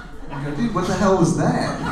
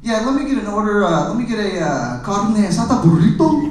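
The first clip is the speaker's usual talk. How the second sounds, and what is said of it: Exaggerated put-on Spanish accent. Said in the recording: “they slap on this Spanish accent out of nowhere. Like it's their second language.”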